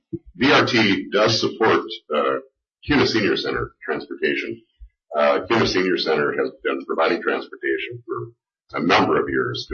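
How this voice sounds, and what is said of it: Nasal, congested voice. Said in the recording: “I'm all nasally, and the allergies have just really nailed me”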